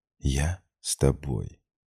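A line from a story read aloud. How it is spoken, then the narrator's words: Soft whisper into ear. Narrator (Russian): склонилась ближе к самому уху и, тихо, чуть задевая его мочку губами, только ему прошептала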